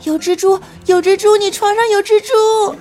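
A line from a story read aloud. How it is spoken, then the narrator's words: Terrified screaming. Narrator (Chinese): 我瞬间就花容失色，惊声惨叫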